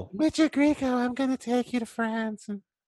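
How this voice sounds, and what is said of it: Imitates another person's voice. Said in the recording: “my horrible Jackie O impersonation”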